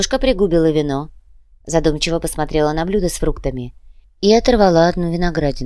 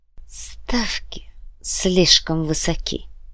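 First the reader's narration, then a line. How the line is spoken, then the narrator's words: Grumbling. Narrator (Russian): буркнул Александр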